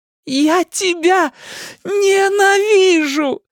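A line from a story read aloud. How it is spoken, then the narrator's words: Screamed while struggling. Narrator (Russian): закричала Рэйчел, вырываясь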